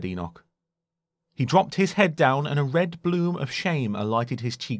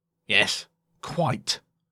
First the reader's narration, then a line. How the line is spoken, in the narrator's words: said curtly